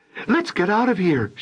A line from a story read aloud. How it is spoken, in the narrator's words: she cried